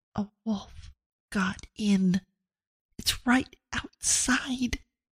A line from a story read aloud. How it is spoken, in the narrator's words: She leaned as close as she could to Abigail's ear and whispered